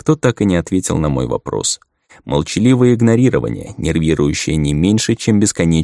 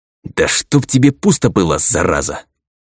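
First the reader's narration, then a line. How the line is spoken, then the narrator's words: Angry hiss. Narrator (Russian): прошипел я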